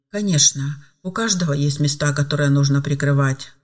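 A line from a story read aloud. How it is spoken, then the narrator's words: Sighing. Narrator (Russian): вздохнула Ева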